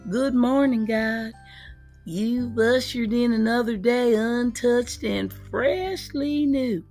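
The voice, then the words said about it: Exaggerated country twang. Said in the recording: “in my country twang”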